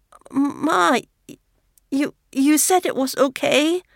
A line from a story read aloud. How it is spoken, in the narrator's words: Renshu stutters